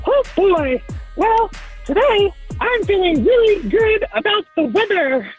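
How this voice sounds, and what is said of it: Mickey Mouse cartoon character voice. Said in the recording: “in your best cartoon character voice? ... You are the first caller that actually sounds like a cartoon character for real. ... It's Mickey Mouse.”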